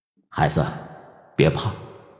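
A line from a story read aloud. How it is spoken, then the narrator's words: Soft gentle voice. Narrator (Chinese): 轻声说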